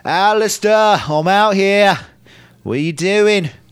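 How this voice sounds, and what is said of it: Really bad Australian accent. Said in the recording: “It's a really bad Australian accent.”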